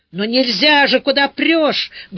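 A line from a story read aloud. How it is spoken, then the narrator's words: Rough, scolding. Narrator (Russian): грубо одернула меня та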